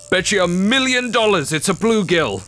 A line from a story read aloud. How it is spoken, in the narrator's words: Grandpa Hal shouted